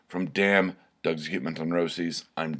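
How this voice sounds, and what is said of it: Angry-sounding delivery. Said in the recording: “I'm saying this so angrily.”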